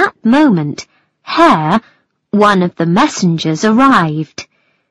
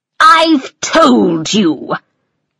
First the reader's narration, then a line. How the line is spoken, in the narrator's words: the King said crossly